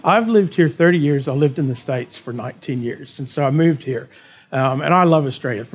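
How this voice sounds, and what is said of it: American Texan accent. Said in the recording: “I've lived in Australia for 30 years now, and you can still hear it... You can still hear the accent... as a Texan and as an American”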